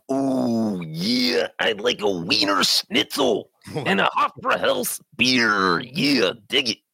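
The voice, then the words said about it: Macho Man style German accent. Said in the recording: “You want to do a German accent? ... Could you do a Macho Man German accent?”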